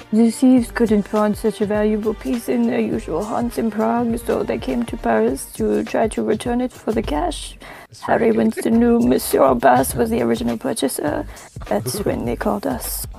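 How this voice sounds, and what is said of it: French accent. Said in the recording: “a real Frenchman. I can tell how French you are just from the accent.”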